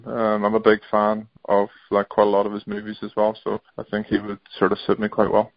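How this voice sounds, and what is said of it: Northern Irish accent. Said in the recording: “he's sort of got a similar accent. But he actually was born and grew up not far from where I live in like Northern Ireland”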